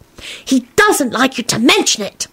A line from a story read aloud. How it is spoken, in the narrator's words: Teddy hissed